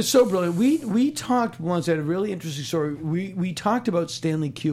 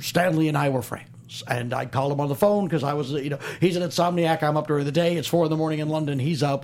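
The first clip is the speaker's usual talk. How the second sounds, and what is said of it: Impression of Albert Brooks. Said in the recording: “I'm doing my impression of Kevin Pollak's impression of Albert Brooks.”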